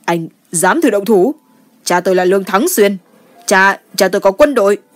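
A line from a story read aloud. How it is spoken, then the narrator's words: Panicked angry breathless shout. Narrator (Vietnamese): Mắt Lường Chấn lộ ra một chút hoang mang, tức giận lớn tiếng hổn hển nói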